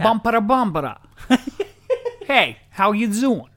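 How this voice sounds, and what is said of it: Put-on New York Bronx accent. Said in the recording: “I challenge you to New York ... New York. ... The Bronx.”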